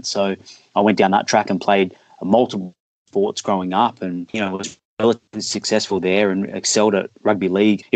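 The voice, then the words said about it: Australian accent, fairly quick speech. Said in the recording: “If I'm speaking too quick, I'll try and slow it down. So the Australian accent can be hard to catch on to at times.”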